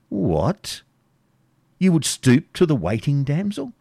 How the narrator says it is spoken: said de Bracy

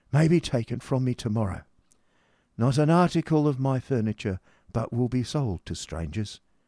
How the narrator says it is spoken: sighed the poor gentleman

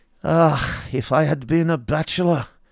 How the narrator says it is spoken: said the Baron, sighing

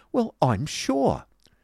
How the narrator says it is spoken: exclaimed Miss Price

